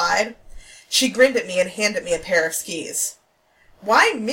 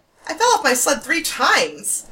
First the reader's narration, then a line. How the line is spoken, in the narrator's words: I exclaimed